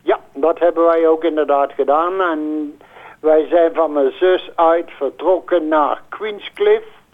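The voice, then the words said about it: Brabant Dutch regional accent. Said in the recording (Dutch): “als ik goed luister naar je accent, dan ben je van Brabantse afkomst.”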